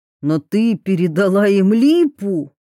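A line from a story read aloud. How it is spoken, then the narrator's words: Barely suppressed exclamation. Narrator (Russian): Едва не воскликнул Щепкин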